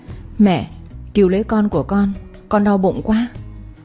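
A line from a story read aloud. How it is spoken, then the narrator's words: Whimpering tearful. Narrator (Vietnamese): Mợ ba mếu máo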